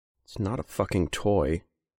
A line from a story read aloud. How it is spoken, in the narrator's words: he said quietly